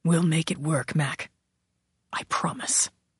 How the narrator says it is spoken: He whispered

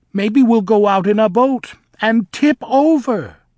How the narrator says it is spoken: Melina shrieked

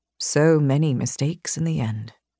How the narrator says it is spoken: he murmured

